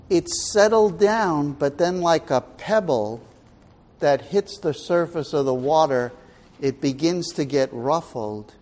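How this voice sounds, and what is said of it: New York accent. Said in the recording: “I know I have a New York accent”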